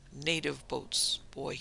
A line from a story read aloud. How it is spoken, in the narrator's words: he said